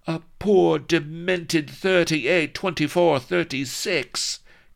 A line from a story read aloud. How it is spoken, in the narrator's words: cried Vanity hotly